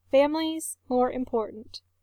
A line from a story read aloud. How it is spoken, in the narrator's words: Eric says firmly